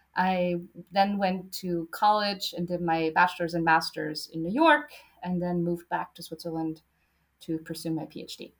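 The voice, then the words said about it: American-influenced English accent. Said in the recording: “I did high school in the US, which is where the accent's coming from.”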